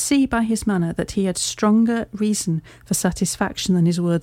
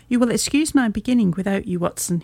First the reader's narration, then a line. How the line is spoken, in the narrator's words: he said